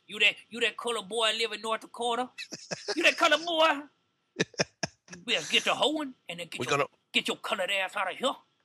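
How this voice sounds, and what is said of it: Imitates another person's voice. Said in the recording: “I bet I can do a dead-on impression of him right now.”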